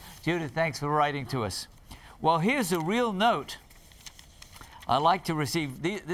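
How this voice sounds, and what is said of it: Usual voice. Nothing is said of it.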